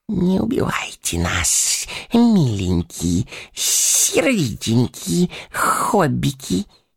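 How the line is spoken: Wheezing hiss. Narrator (Russian): сипел Горлум

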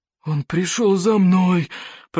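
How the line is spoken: Moaning, trembling with fear. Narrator (Russian): простонал Норберт сумасброд, дрожа от страха

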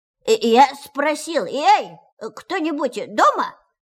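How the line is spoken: Very loud repetition. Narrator (Russian): повторил Пух громко-громко

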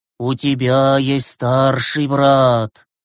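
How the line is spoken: Trance-like voice. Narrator (Russian): проговорил Глеб трансовым голосом

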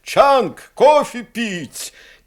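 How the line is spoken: Captain shouting from afar. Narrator (Russian): капитан крикнул с рубки

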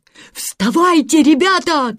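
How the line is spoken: Shouting man. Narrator (Russian): кричал Питер

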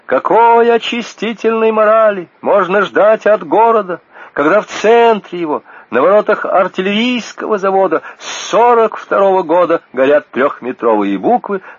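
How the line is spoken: Young woman shouting. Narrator (Russian): молоденькая учительница литературы кричала на собрании

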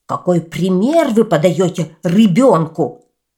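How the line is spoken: Shouting from above. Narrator (Russian): закричал кто-то сверху

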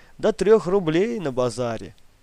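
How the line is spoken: Laughing. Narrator (Russian): Гриша рассмеялся

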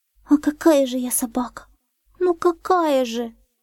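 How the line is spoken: Sobbing puppy. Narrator (Russian): всхлипывал щенок

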